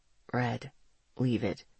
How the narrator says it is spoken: he said quietly

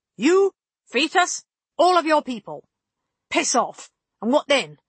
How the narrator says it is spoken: Karst snapped

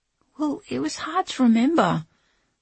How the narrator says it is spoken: Linny pleaded

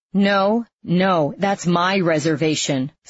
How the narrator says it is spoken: Cindy said, raising her voice

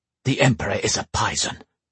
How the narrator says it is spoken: Sonika hissed, sounding much like a snake herself

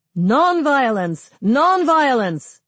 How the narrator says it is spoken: The chant changes to shouts of

